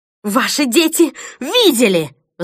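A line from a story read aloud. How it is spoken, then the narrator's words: Shrieked. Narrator (Russian): взвизгнула Бонни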